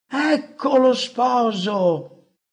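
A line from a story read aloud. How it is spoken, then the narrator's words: Joyful exclamation. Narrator (Italian): Con il volto raggiante di gioia esclamando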